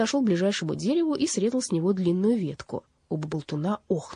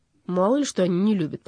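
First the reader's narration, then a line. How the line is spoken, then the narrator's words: Grumbling. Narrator (Russian): проворчал Донор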